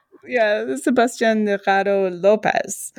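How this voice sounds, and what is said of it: Poor attempted Spanish accent. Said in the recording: “my Spanish accent is obviously horrible”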